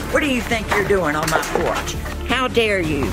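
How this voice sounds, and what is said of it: Stern scolding teacher voice. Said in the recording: “teacher voice”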